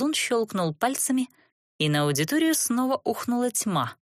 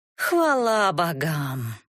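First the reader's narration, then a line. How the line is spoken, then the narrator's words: Irreverent, through gritted teeth. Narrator (Russian): далеким от благочестия тоном процедила Катисса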